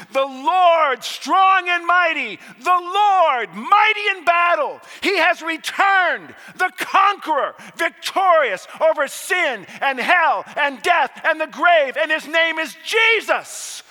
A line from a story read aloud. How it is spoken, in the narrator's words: And thousands upon thousands upon 10,000s upon 10,000s cried out